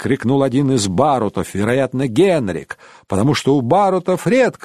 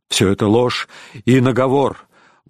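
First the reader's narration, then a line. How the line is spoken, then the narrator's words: Exclaiming. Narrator (Russian): воскликнул Рейнован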